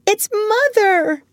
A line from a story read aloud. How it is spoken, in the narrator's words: cried Wendy